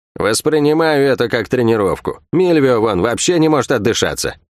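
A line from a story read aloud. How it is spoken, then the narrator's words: Chuckling. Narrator (Russian): Третинец хохотнул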